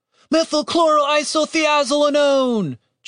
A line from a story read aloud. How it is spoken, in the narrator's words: Julian shouted